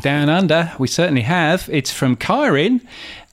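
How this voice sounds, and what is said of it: Put-on accent, not quite Australian. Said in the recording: “I'm not quite sure why I'm doing that accent because it's certainly not an Australian one”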